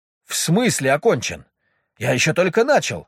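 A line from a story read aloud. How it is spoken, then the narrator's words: Indignant shout. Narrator (Russian): возмущенно выкрикнул жилистый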